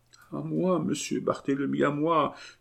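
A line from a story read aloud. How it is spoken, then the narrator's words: Very faint, dying murmur. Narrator (French): murmura d'une voix si faible qu'on eût cru qu'il allait mourir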